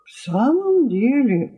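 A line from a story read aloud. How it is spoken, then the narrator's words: Plain. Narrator (Russian): сказал Жоржик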